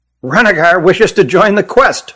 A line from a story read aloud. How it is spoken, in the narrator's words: blurted Hutt